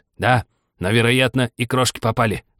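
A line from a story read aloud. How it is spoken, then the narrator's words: Hatter's grumble. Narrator (Russian): пробурчал шляпник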